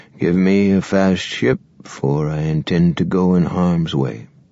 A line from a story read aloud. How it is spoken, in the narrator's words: the Admiral murmured